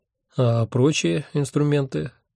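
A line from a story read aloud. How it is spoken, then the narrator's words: Lazy question. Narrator (Russian): лениво поинтересовался я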